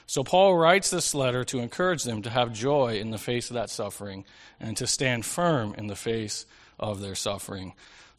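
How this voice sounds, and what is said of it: Low, monotone voice from a cold. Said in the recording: “I'm getting over a little bit of a cold. I lost my voice late last week, so if I sound monotone, like I'm keeping it low”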